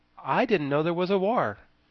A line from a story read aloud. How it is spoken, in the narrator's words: he again exclaimed